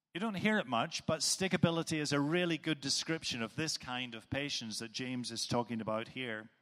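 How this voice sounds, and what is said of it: Northern Irish accent. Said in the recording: “many of you will know from my accent where I do come from, it's Northern Ireland”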